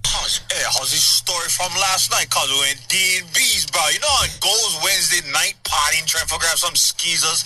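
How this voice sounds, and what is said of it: Strong Hawaiian accent. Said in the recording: “He just tells stories like super Hawaiian accent.”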